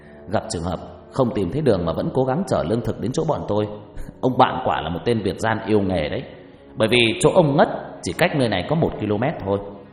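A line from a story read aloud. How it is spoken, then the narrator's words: Laughing scolding. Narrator (Vietnamese): Ngọc cười lớn rồi chửi đều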